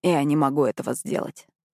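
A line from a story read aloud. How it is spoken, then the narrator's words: Sighing. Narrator (Russian): вздохнул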